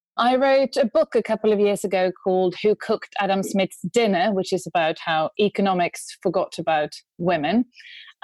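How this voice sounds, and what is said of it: Swedish accent in English. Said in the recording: “I'm from Sweden ... You might be able to hear that from my accent”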